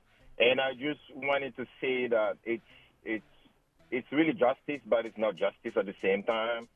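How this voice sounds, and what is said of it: African-accented English. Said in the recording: “I'm sorry for my accent. I'm from Africa.”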